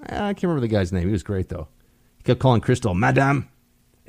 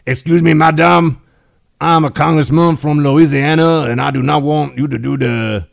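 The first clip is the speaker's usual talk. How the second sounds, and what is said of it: Cajun accent impression. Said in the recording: “He had that kind of Cajun accent thing going on.”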